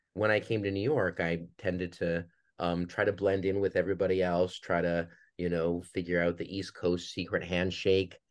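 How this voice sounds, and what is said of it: Minnesota accent, sounds almost Canadian. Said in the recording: “is this guy Canadian? That's the accent. ... I'm from Duluth, Minnesota”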